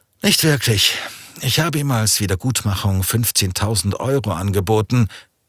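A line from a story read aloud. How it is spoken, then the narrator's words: Sighing. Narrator (German): seufzte er und sagte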